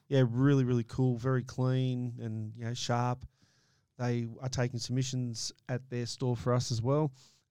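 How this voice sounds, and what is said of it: Strained, almost lost voice. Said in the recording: “You got no voice? ... I got nothing left. ... I'll definitely lose my voice.”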